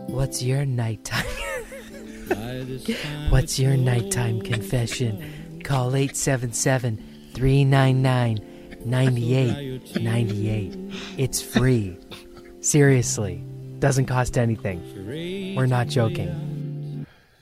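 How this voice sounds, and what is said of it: Failed attempt at a sexy voice. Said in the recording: “What the hell voice was that? ... You said you were using a sexy voice. I'm sorry, but that is far from... I'm the weirdo in a panel van voice. ... It's terrible.”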